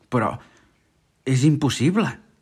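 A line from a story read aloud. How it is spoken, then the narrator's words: Captain exclaiming in despair. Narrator (Catalan): va exclamar el capità, caient de genolls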